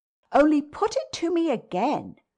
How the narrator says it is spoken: I cried in a way that made my friend stare

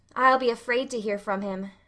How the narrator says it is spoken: sighed Anne

